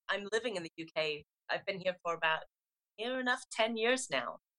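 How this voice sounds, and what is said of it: South African accent with English twang. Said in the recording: “because of the South African accent and the English twang, I sound Australian”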